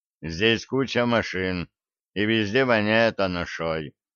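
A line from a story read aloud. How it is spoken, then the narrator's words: Displeased grumble. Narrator (Russian): недовольно пробурчал Федя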